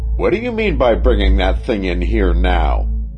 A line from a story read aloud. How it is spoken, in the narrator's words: exclaimed